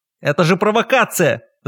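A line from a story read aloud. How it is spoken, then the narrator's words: Ringing shout. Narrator (Russian): Звонко крикнул Луцис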